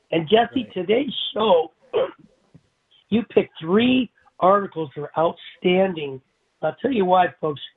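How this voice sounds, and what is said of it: Hoarse, nearly lost voice. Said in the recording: “I lost my voice with this flu bug”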